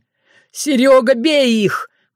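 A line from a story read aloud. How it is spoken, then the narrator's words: Howling. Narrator (Russian): взвыл Роман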